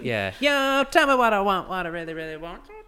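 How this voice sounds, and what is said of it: Imitates a pop group's singing voice. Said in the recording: “You should just do a Spice Girls impression.”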